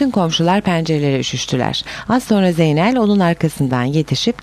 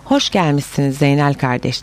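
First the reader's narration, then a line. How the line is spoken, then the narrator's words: Plain. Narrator (Turkish): dedi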